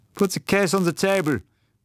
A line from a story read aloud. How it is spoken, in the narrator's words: cried the German